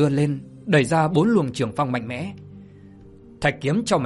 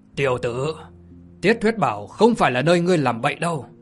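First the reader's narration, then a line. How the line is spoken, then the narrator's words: Angry old man shouting. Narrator (Vietnamese): Vị già râu đen bên hữu giận dữ quát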